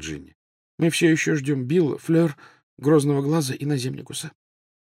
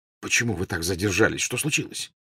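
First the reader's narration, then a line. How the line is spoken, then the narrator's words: Almost angry question. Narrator (Russian): почти сердито спросил Люпин у Тонкс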